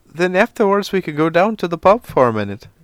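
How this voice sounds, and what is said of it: Put-on Irish accent. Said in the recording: “I can't do a fucking Irish accent.”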